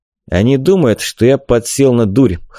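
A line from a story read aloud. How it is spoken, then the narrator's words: Wry snort. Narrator (Russian): хмыкнул я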